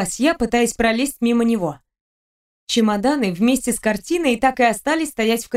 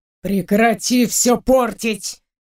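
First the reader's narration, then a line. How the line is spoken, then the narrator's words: Man's hiss. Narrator (Russian): прошипел мужчина мне в лицо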